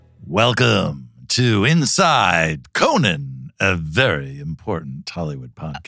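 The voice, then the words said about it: Announcer-style radio voice. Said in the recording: “radio voice ... The voice I usually use is my radio voice.”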